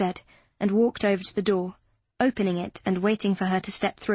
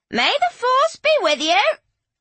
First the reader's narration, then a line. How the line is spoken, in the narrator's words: Lady Carcar cried out